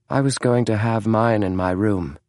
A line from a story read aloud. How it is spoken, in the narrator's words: James replied in a cool tone